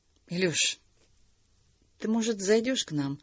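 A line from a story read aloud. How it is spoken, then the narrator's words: Timid suggestion. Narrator (Russian): робко предложила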